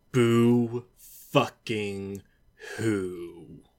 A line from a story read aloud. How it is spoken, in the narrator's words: Jonathan growled